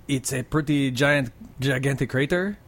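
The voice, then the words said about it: Put-on French accent. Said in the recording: “Say it in a French accent.”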